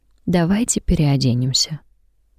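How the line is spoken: Soft suggestion. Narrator (Russian): мягко предлагает она

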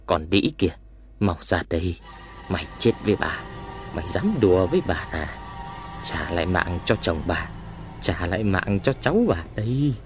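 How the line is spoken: Muttering. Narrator (Vietnamese): Bà vừa đi vừa lẩm bẩm

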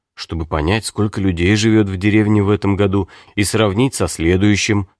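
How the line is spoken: Calm answer. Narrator (Russian): спокойно ответил Пилсудский

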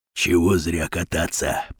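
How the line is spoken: Whisper. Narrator (Russian): прошептал Батон

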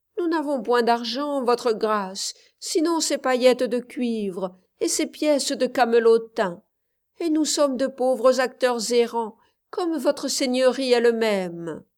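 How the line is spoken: Answered groaning. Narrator (French): À quoi les deux Jeffs répondirent, en gémissant

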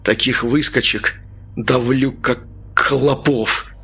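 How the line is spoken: Forced through gritted teeth. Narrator (Russian): выдавил Артем сквозь зубы

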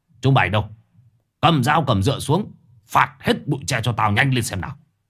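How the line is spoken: Commanding shout. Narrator (Vietnamese): Ông quay sang nhìn mấy thằng thanh niên rồi quát

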